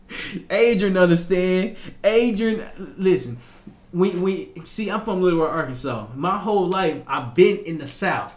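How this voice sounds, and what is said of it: Southern US accent. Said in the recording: “a southern accent. I have a strong accent when I'm relaxed”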